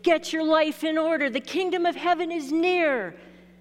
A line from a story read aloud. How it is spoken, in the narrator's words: John the Baptist yells